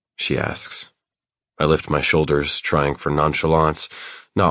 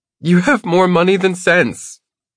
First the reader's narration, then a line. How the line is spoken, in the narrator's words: she cries